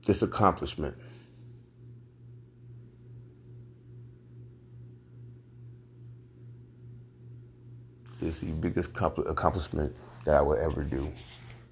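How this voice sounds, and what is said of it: Emotional, choked-up speech. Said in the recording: “sorry, I'm just getting emotional.”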